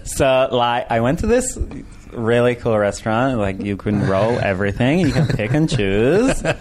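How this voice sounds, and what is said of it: LA bro accent. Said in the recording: “LA accent, LA bro. Accent, I can't understand you.”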